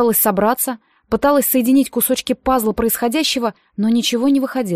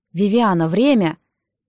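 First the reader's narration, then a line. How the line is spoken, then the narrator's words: Almost plaintive. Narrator (Russian): почти жалобно произнес Нолан Ридсби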